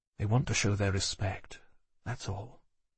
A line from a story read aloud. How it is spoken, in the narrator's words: said quietly